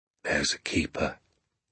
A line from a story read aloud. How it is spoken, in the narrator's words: he said softly